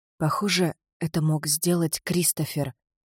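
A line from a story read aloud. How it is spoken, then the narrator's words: Whisper. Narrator (Russian): прошептала Селия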